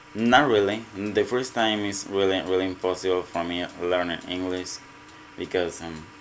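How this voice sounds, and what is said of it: Mexican accent in English. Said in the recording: “my accent is Mexican”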